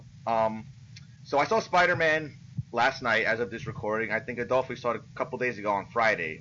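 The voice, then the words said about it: Voice sounding a little off. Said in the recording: “my voice is sounding a little weird”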